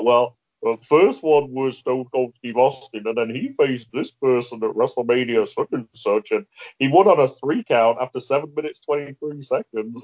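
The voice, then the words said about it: Poor impression of a co-host's voice. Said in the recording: “That was the worst Matt accent. I don't know why I went into that voice. That wasn't even close.”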